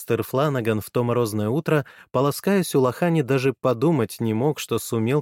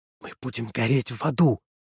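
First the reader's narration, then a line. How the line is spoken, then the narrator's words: Hissed. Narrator (Russian): прошипела Уолш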